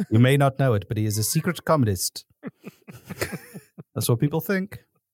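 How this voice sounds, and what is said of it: Old-timey American PSA announcer voice. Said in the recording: “this is the best accent you've got going, which is old timey American PSA”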